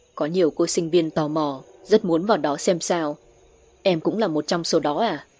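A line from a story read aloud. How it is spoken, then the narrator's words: Low deep voice. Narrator (Vietnamese): nói bằng một giọng trầm trầm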